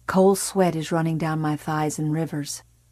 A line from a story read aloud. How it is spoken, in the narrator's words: Tommy said gravely